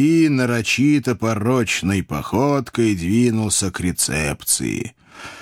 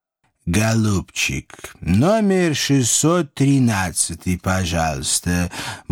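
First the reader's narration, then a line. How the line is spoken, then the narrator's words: Purring. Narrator (Russian): мурлыкнул он сонному портье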